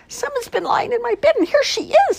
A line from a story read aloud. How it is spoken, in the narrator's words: squeaked the bear cub in the biggest voice he had